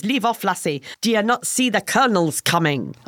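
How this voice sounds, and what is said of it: Poor put-on Scottish accent. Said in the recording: “my accent was terrible ... That's worse than your French”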